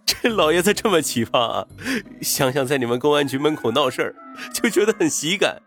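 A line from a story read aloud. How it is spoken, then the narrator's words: Gloating laugh. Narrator (Chinese): 云峰幸灾乐祸的笑道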